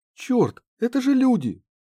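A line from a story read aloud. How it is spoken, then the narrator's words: Exclaimed. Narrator (Russian): воскликнула Банши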